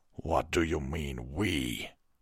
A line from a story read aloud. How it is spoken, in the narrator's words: Vengard asked, his voice low and dangerous